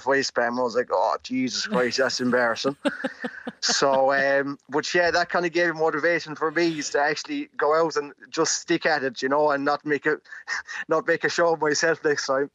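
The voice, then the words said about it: Mixed Irish accent. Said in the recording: “I'm trying to place your accent because you're from Rathfarnham, but I mean, I'm picking up bits of Mayo and the Midlands and all over the place. ... it's an All Ireland accent”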